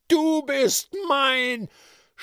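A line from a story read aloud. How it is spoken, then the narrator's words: Shrill scream. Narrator (German): schrie da ein gellender Ton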